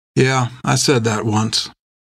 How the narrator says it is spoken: replied Tan with a cheerless chuckle

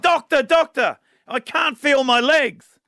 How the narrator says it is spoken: He shouted

